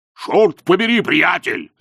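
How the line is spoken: Harsh bark. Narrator (Russian): рявкнул он

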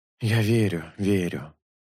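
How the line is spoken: Sighing. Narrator (Russian): вздохнул Шелк

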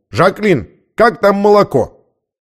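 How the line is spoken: Bearded man shouting. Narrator (Russian): Бородатый мужчина крикнул

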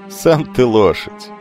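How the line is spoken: Laughing. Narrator (Russian): засмеялся Херон

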